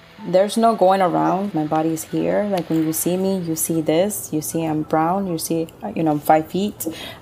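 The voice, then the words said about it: Speaker's own non-native English accent. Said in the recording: “You hear my accent.”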